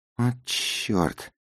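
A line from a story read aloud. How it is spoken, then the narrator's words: Whispered. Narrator (Russian): прошептал я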